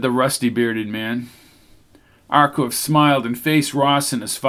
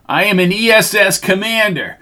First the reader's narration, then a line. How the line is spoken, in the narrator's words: yelled Ross